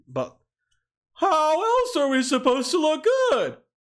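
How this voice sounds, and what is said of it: Jerry Seinfeld impression. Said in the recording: “good Jerry Seinfeld impression”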